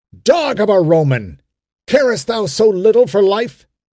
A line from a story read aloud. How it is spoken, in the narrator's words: he cried